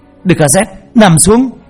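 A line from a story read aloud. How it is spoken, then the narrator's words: Shouting. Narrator (Vietnamese): Ông la lên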